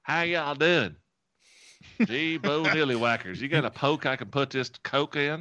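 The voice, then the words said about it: Exaggerated put-on Southern US accent. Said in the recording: “like being a Southern person, like from Tennessee ... start talking like ... Southern accent”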